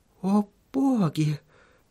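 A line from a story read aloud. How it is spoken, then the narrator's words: Muttered. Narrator (Russian): пробормотала Сахариса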